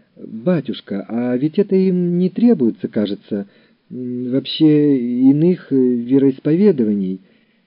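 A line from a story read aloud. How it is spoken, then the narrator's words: Teacher's uncertain speech. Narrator (Russian): Учитель русского языка неуверенно сказал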